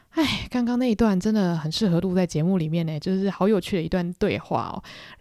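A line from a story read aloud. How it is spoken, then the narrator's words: Sighing. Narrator (Chinese): 叹气，想说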